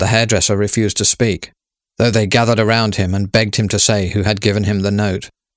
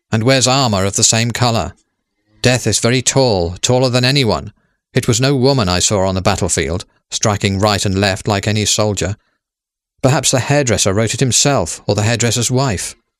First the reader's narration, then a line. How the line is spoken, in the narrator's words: said Captain Compson firmly